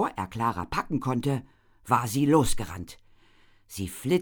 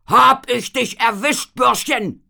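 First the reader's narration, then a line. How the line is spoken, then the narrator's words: Roar. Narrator (German): brüllte Eltinger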